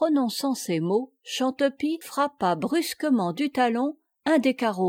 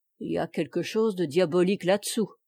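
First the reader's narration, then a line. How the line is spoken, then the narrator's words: Murmured. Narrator (French): murmura ce dernier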